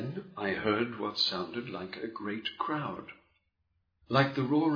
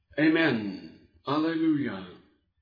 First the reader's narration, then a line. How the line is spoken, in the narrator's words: The 24 elders and the 4 living creatures they cried